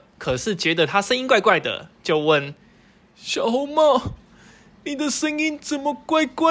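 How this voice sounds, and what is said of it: Usual voice. Nothing is said of it.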